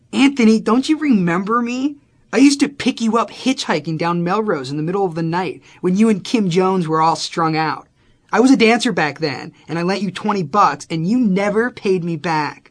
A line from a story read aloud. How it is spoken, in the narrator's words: she started yelling at me